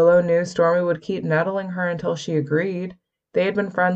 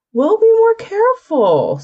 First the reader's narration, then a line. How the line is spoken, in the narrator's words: Stormy whined